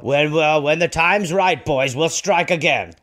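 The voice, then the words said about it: Put-on voice of a fire. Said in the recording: “my fire impression”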